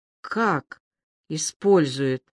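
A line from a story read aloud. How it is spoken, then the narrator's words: Quiet question. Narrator (Russian): тихо спросила Аля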